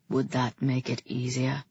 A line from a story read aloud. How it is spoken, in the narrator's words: He asked, and his voice was low and harsh and totally arresting